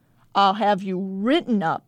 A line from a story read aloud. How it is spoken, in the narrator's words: barks